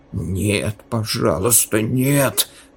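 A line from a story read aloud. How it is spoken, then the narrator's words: Desperate whisper. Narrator (Russian): прошептал он, увидев, что капли крови безошибочно вели к палате Линьи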